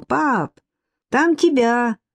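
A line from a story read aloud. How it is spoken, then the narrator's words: Shouting into the house. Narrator (Russian): Черноволосый подросток недовольно закричал в глубину дома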